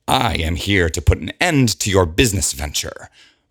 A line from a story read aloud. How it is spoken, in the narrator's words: Rosalind growls